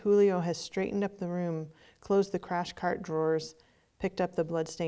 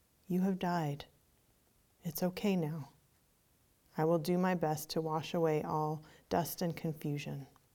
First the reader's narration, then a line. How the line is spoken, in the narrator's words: leans over respectfully, as if bowing to the person's nobility, and whispers softly in the ear